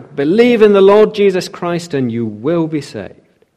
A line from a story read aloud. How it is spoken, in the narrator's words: He shouted back